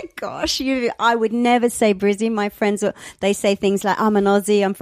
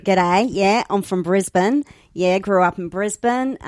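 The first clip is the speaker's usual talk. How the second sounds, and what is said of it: Exaggerated Australian accent. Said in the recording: “I'll try and do my best to Australian accent.”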